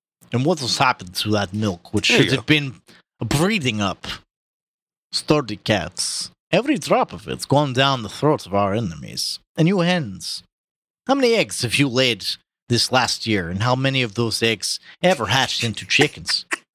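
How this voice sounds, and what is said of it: Put-on heavy Russian accent. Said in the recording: “just a little Russian ... Think like a really fat Stalin ... Same accent ... Be fatter.”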